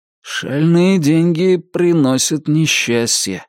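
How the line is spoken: Gloomy remark. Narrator (Russian): мрачно заметил Джонни

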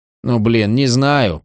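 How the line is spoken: Mumble. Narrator (Russian): промямлил Нэттлз

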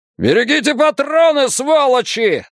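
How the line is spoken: Yelling. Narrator (Russian): заорал лейтенант

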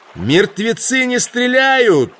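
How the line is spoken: Shouted in reply. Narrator (Russian): крикнул он Кристобедое в ответ

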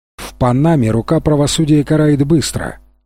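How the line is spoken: Plain. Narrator (Russian): ответил начальник полиции

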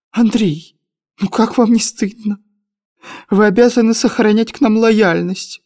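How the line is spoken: Pleading. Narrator (Russian): взмолилась Ольга Трифоновна

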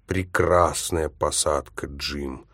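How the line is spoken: Groan. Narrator (Russian): Простонал я

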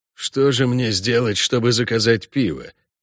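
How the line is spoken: Quiet question. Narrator (Russian): негромко спросил квартерон

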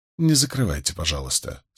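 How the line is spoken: Calm request. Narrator (Russian): спокойно попросил Мэтью

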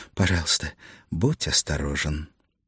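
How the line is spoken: Whispered. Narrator (Russian): Она шепнув

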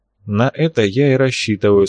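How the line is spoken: Calm remark. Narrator (Russian): спокойно заметил капитан

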